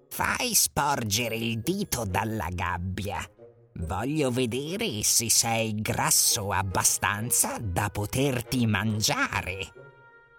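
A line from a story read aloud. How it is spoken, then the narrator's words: Witch's snarl. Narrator (Italian): la strega zoppicò verso Hansel e ringhiò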